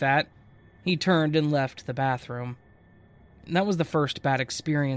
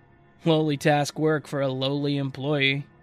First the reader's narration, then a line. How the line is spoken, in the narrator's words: burst out laughing